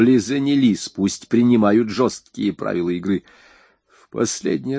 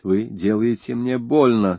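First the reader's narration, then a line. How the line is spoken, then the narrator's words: Muttered through teeth. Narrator (Russian): сквозь зубы пробормотала она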